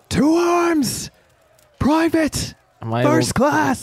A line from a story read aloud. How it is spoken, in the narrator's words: He lets out a painful groan, but once again begins to shout